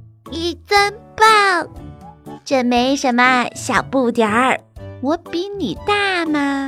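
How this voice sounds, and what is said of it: Usual voice. Nothing is said of it.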